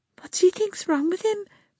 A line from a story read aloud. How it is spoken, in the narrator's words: Priscilla said, her voice shaking